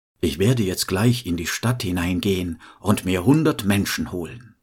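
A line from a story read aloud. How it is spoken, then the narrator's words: Calm voice. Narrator (German): Der Tod sprach mit ruhiger Stimme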